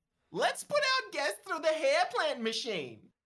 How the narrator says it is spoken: Nasty Kathy squeals

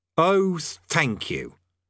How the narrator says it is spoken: said Rincewind bitterly

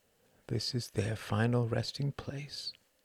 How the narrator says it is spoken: murmured Ruth

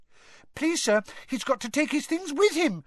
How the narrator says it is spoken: squeaked Colin

